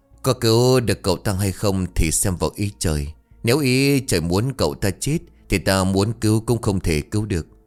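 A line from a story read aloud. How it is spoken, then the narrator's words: Moved, sighing old woman. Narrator (Vietnamese): cảm động, bà thở dài rồi bảo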